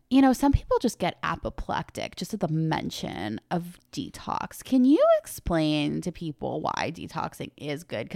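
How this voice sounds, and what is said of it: Impression of an interviewer's voice. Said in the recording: “really good Elise Lunin impression”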